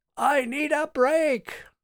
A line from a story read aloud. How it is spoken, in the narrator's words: Martin shouted unnecessarily